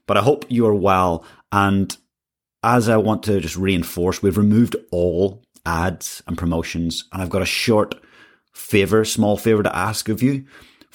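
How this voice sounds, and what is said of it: Croaky, hoarse voice. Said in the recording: “apologize for my voice today. You'll hear it's not its usual self. It's a little bit croaky today”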